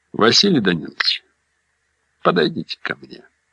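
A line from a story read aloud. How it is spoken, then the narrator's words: Quiet. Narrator (Russian): сказал я негромко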